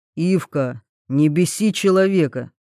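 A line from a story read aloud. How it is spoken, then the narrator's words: Stern rebuke. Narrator (Russian): строго одернул администратор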